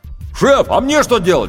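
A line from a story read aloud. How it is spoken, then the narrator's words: Shouted from below. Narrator (Russian): крикнул снизу рулевой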